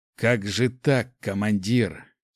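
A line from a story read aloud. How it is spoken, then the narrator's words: Whisper through teeth. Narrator (Russian): сквозь зубы прошептал Гош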